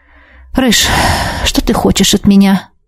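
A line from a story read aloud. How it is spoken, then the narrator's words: Tired question. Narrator (Russian): устало спросила у него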